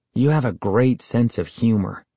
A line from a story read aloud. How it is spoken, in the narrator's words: I muttered sarcastically